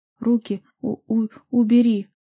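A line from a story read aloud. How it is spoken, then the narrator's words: Strained, syllable by syllable. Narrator (Russian): Выдавила себя я по слогам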